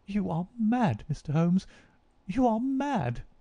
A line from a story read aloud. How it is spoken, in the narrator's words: she cried at last